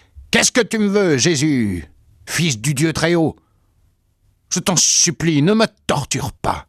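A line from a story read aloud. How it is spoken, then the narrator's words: Loud howling cry. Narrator (French): il poussa des hurlements en criant d'une voix forte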